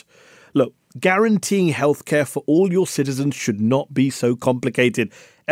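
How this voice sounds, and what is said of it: British accent. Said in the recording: “I'm from the UK. Maybe the accent gave me away”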